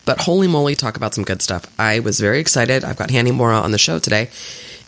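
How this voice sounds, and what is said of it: Sick, flu-affected voice. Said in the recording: “you can probably hear it in my voice, got a little bit of flu”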